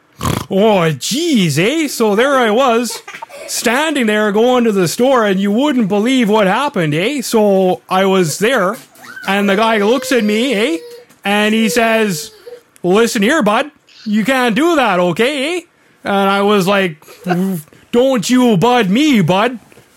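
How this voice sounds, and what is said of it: Exaggerated Canadian hoser accent. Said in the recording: “a hardcore hoser accent”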